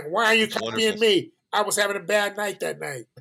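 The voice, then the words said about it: Imitates another person's voice. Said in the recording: “You do a great imitation, by the way.”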